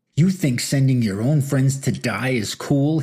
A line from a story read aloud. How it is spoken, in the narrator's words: he screamed